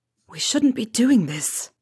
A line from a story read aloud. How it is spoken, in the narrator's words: Regulus whispered